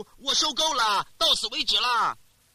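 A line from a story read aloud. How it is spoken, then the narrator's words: Loud anguished cry. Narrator (Chinese): 当你经历过太多的痛苦之后，大声疾呼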